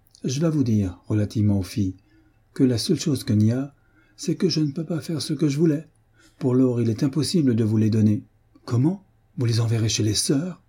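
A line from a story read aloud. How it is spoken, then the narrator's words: Astonished exclamation. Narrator (French): s'écria Hélène, stupéfaite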